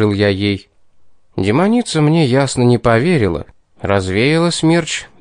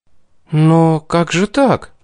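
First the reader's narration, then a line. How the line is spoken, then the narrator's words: Bewildered. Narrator (Russian): растерянно обратилась ко мне Кейтлин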